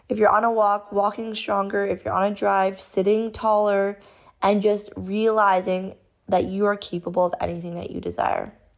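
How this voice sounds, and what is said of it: Unwell, impaired voice. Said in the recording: “sorry about my voice, ... I really want this to go away.”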